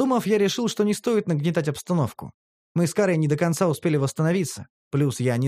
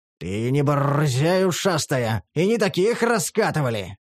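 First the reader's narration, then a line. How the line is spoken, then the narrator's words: Growled by gang leader. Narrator (Russian): рыкнул главарь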